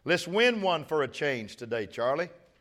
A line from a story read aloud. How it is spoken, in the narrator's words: she hollers from right field